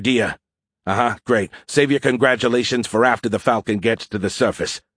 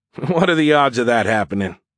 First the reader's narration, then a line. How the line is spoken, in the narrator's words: Bishop laughed nervously